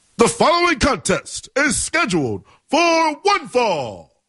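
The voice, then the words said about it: Poor imitation of wrestling ring announcer. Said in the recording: “that was kind of like Howard Finkel-y. That was a bad Tony Chimmel impersonation.”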